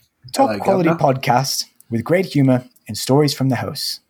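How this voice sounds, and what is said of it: Put-on London English accent. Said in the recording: “his accent ... You sound like you're from London.”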